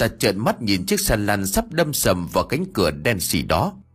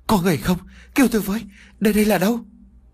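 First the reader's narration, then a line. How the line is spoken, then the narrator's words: Terrified, shrill cry. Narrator (Vietnamese): Tả Thu Phi kêu lên thất thanh, nỗi sợ hãi dâng ngập trong lòng của cô ta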